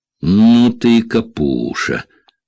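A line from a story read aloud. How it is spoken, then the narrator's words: Contemptuous, through gritted teeth. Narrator (Russian): презрительно процедила сквозь зубы Тереза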